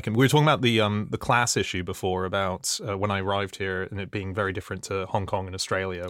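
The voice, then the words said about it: Foreign, non-British accent. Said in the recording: “because of my accent, I was given a pass. I was a bit of an alien ... You sound like an outsider”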